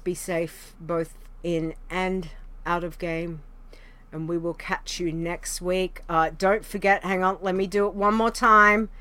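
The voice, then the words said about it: Hoarse, strained, nearly lost voice. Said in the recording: “my throat is just about gone ... before I lose my voice”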